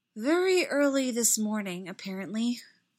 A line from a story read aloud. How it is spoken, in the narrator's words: Padme said, with a sigh of relief